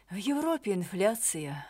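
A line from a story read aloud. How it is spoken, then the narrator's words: Sighing. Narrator (Russian): вздохнул Дронго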